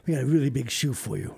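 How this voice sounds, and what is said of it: Weak Ed Sullivan impression. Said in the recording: “I'm not going to do an Ed Sullivan impersonation. ... No, I can't do that stuff really well.”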